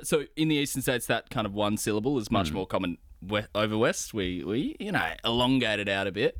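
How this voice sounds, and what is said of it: Western Australian accent. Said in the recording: “I'm, of course, a Western Australian ... the WA accent ... pretty generally, you know, a normal kind of Australian accent”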